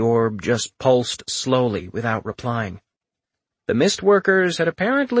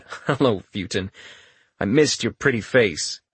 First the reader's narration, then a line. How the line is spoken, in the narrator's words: Chuckling lightly, Richter replied